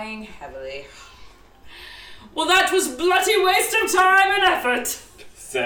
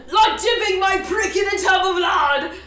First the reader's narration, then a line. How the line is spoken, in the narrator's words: Harry exclaimed